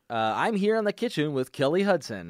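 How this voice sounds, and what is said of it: Mock announcer voice. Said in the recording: “In an announcer voice.”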